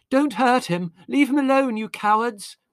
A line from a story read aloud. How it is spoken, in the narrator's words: voice, shrill and tearful